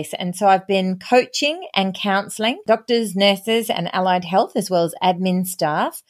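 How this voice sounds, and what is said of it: Australian accent. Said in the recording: “she might be able to tell from her accent, she is Australian”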